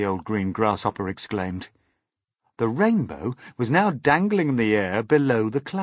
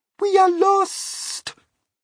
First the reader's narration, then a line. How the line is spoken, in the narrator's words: Miss Spider cried